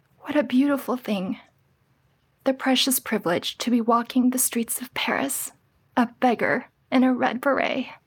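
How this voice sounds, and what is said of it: Teary, emotional voice. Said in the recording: “I got a little teary there”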